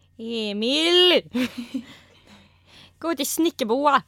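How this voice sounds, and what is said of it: Put-on Småland accent, badly done. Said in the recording (Swedish): “Du var ju väldigt bra på att härma, vad var det nu då, småländska ... jättedåligt”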